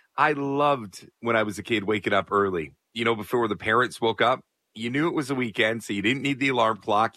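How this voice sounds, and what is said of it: Slightly raspy voice. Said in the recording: “My voice is a little raspy because I went to a wrestling show last night.”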